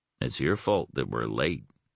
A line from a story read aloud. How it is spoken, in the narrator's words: Max remarked blandly